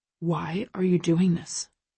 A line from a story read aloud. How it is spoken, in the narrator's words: He asks, his voice low